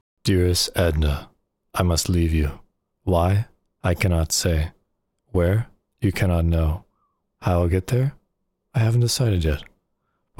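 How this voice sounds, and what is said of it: Smooth, silky character voice. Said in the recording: “your whole impression of that nice, smooth, silky voice”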